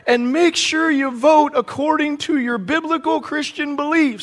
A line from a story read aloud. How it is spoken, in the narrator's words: the other one yelled back